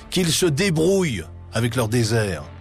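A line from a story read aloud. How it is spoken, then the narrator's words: Exclaims. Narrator (French): s'écrie de Gaulle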